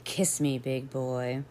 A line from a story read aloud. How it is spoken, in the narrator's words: she purred, said